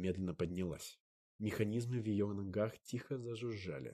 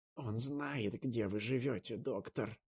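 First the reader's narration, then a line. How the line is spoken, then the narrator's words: Hissing. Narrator (Russian): прошипела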